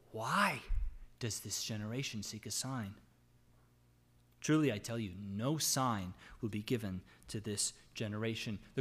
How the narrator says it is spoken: he sighed deeply in his spirit and said

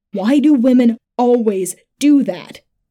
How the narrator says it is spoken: shouted

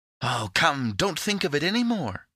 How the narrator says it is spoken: cried Epimetheus

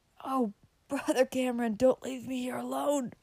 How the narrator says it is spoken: cried Frank

